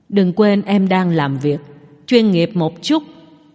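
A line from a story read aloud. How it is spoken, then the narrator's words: Cold reminder. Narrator (Vietnamese): Tống Duệ lạnh lùng nhắc nhở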